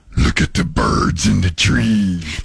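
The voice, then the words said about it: Imitated movie villain voice. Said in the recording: “That's actually a really good impression.”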